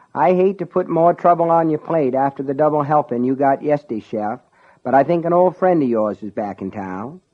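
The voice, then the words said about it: Drawling Down East Maine accent. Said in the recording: “drawling down east accent”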